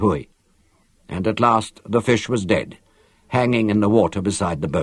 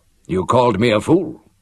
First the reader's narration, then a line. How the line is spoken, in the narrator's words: said Lannan